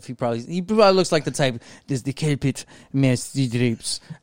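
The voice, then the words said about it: Put-on Spanish-sounding accent. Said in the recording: “I don't know why I gave him that accent ... I thought he was Spanish”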